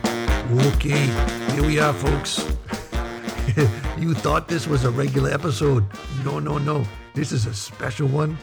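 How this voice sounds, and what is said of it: Mixed Boston, troll and pirate accent. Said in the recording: “What is this accent? ... I'm getting like part Boston, part like Troll Under the Bridge, part pirate, maybe? ... It's the Troll Under the Bridge of Boston.”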